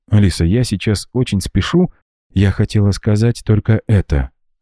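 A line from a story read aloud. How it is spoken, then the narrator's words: Timid, smiling. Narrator (Russian): робко улыбнулась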